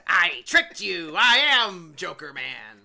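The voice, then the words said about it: Impression of the Joker's voice. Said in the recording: “know how Mark Hamill is sometimes in his roles like it's me, the Joker Man ... great impersonation.”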